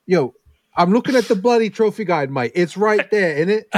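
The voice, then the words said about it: Put-on British accent. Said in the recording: “You want a British accent?”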